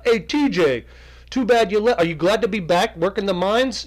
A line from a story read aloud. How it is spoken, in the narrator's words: one of the miners yelling out